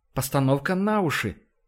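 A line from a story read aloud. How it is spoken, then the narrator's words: Calm, serene explanation. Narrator (Russian): объяснила Ива безмятежным тоном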